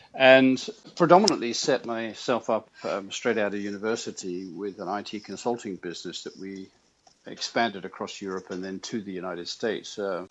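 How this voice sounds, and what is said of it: British accent. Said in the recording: “with my accent, you probably discovered I'm not a native of these here parts of the United States. I'm actually British.”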